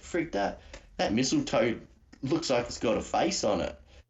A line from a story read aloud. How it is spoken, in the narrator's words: sort of laughed and went